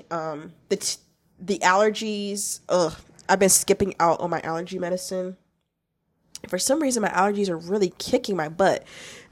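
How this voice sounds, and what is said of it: Hoarse, congested voice. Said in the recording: “my voice is a bit hoarse, I'm congested”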